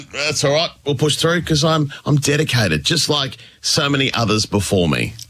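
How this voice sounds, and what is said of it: Congested voice with a cold. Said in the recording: “I'm not sounding my best ... Yes, I've got a bit of a cold, bit of man flu”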